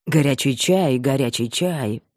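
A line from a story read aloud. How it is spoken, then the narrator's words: Muttered to himself. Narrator (Russian): пробормотал про себя Бабкин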